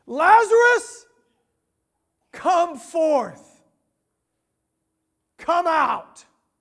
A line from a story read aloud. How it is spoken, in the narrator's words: Jesus shouted with a loud voice, and he cried out and he said